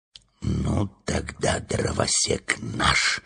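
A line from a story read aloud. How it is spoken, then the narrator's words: Whispered. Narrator (Russian): прошептал Урфин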